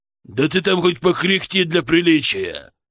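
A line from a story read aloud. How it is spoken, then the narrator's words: Growled. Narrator (Russian): прорычал он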